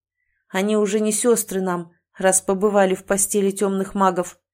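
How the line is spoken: Cold declaration. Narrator (Russian): заявил холодно Эрик

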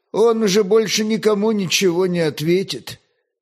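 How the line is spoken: Grim. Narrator (Russian): второй огнещанин мрачно сказал

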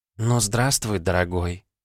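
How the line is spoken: Cooing ghost. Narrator (Russian): проворковал призрак

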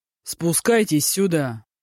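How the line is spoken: Grumbling. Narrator (Russian): проворчал Мажун

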